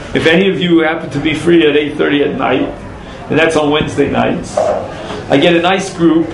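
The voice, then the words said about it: Brooklyn accent. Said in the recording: “I'm the only one who speaks this Brooklynese accent.”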